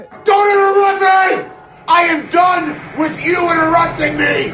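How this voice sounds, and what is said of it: Angry yelling. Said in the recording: “you don't have to yell.”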